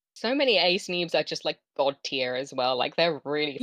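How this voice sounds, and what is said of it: Heavy West Country English accent. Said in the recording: “my naturally pretty heavy West Country accent”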